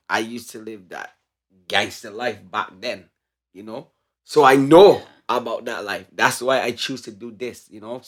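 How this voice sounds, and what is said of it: Barbadian accent. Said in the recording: “where the accent comes from ... So I'm from Barbados.”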